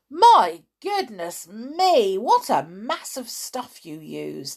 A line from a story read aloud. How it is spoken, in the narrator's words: he cried